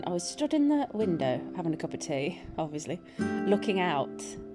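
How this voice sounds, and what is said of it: Slight Birmingham twang. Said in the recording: “I used to live in Birmingham... You might hear the twang in my accent. Sometimes there's a little twang.”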